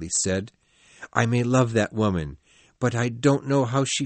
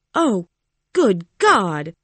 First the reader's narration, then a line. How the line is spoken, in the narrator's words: Matilda cried